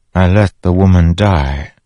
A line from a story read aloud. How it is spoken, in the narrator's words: Fen said softly